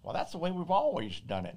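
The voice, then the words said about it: Put-on unidentified accent. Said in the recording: “I don't know what accent that was”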